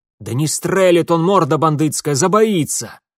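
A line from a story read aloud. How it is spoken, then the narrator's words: Impatient shout. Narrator (Russian): приплясывая от нетерпения, выкрикнул кудлатый сторож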